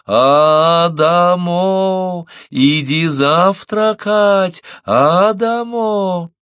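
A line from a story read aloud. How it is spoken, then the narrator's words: Smiling singsong call. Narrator (Russian): улыбаясь, позовет нараспев, растягивая каждый слог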